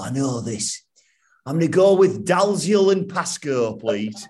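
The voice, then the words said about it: Put-on Yorkshire accent. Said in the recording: “it's Yorkshire bloke were on there ... I love the accent.”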